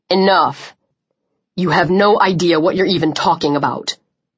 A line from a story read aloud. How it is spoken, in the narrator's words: Chubbs growled